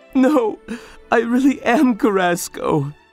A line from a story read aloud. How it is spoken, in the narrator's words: sobbed the student